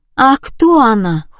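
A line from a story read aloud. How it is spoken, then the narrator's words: Exclaiming in unison. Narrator (Russian): хором воскликнули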